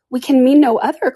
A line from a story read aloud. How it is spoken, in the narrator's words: cried Lucy, smiling